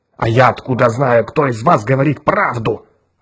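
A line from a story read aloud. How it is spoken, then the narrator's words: Irritated reply. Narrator (Russian): раздраженно ответил Гаррис Хайнс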